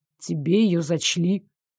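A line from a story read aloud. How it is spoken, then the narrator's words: Muffled voice. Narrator (Russian): глухо проговорил Дарек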